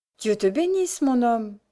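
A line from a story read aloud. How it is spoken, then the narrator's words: Happy woman's cry. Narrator (French): cria l'heureuse femme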